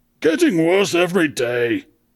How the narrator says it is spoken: he groaned histrionically

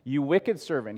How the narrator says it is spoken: said

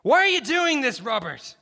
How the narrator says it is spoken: Garrison shouted

